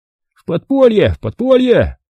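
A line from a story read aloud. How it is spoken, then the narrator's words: Joyful squealing group. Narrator (Russian): Радостно подпрыгивая, заверещали мы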